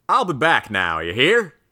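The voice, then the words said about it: Exaggerated rural hick drawl. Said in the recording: “It's the stereotypical hick farmer accent ... sounds like some hick”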